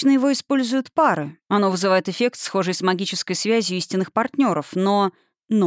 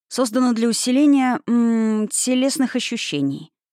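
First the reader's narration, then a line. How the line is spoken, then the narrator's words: Professorial tone after pause. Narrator (Russian): начал Николас профессорским тоном, выдержав паузу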